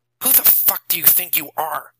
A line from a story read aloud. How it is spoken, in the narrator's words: Nathan asked him angrily